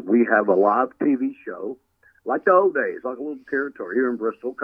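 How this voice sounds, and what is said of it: Regional Tennessee accent. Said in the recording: “can't you tell with this accent I got? Can't you tell I'm from up there?”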